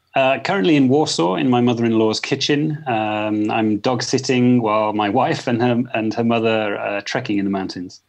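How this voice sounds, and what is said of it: Speaks with a non-French accent. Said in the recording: “by your accent, you're not French”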